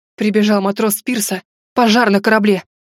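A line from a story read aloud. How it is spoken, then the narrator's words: Breathless exhale. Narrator (Russian): выдохнул он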